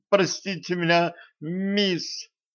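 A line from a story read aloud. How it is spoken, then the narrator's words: Sobbing with anger. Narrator (Russian): всхлипывая от злости, проговорила Женька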